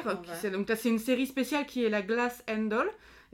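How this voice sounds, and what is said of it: Put-on English accent. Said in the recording (French): “Avec mon super accent anglais.”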